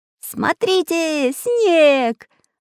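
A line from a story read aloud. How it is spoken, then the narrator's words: Joyful shout. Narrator (Russian): радостно закричал Чижик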